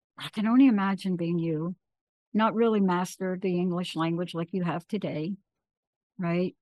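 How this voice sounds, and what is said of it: Choked-up, emotional voice. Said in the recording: “I'm getting a little choked up here ... I'm getting a little bit upset right now”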